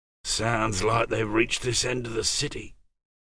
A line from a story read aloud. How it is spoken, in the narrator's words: said James softly